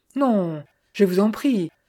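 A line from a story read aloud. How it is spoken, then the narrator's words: Young woman exclaiming. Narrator (French): s'exclama la jeune fille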